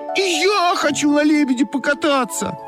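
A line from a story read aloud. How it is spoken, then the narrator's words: Shouting. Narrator (Russian): закричала Олька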